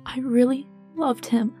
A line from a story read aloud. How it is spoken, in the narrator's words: Sommer choked quietly into his chest